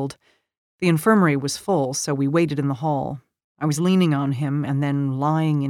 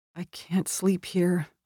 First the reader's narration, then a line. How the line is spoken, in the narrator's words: I mumbled